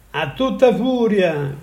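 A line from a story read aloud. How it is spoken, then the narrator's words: Shouted. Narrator (Italian): gridò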